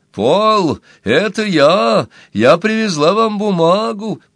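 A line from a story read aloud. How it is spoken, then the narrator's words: Cheerful shout. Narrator (Russian): Энни весело крикнула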